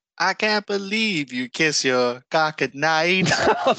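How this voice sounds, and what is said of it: Imitates another person's accent. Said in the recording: “in her accent, it sounds like she's going”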